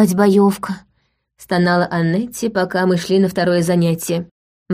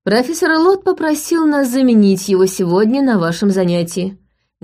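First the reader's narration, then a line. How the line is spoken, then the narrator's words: Loud. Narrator (Russian): громко произнесла Джулиана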